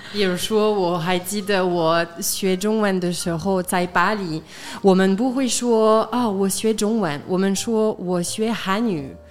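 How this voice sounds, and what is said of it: Taiwanese-style Mandarin accent. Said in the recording (Chinese): “他的中文是台湾式的 ... 听起来是那种台湾的感觉”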